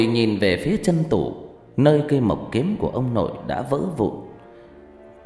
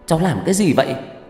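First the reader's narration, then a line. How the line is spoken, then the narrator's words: Shouting. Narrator (Vietnamese): Ngọc Lam trợn mắt hét lớn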